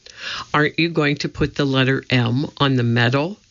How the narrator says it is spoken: said Annie

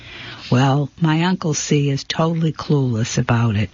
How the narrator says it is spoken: she said

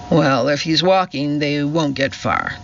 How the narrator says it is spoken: sneered the policeman

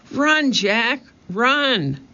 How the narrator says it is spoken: cried Annie

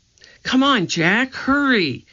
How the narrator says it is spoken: cried Annie

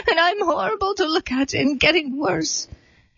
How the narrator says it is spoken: sobbed the disguised queen

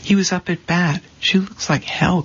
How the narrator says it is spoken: Connie said

